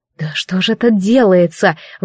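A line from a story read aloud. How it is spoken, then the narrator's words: Breathless exclamation. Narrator (Russian): выдохнула я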